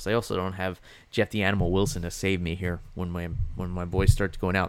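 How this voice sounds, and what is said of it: Slightly hoarse voice. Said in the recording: “my voice is getting a little hoarse.”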